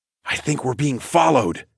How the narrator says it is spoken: I finally whispered to Sorsha

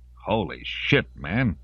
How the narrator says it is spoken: Intoco spat

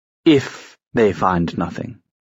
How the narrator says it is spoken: Gideon said in a disgusted tone

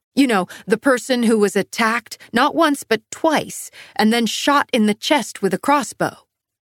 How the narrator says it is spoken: I snapped

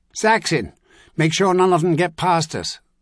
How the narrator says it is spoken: that same voice shouted

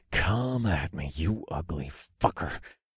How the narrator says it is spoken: growled

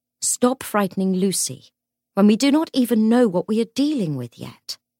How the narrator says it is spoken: said Cordelia sharply

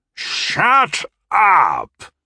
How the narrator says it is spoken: bellowed Gimbal

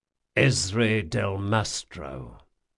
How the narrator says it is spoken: he said very quietly

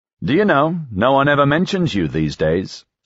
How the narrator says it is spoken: Sky said

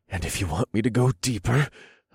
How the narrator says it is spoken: I panted

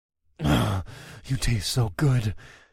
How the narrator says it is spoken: I growled

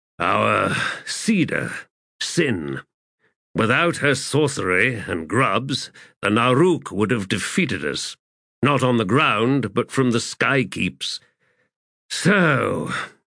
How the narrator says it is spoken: he sighed

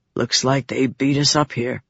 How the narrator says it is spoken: Vatha said softly

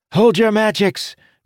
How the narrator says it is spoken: Felinia shouted

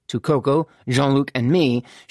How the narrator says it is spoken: she said hastily

